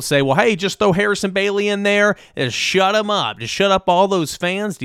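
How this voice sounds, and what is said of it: Exaggerated put-on accent. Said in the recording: “Do you like this accent I'm using right now? I apologize if it's offensive.”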